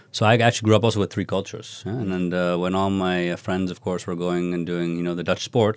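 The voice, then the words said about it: American-educated English accent. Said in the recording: “I have an American education, as you can hear from my accent.”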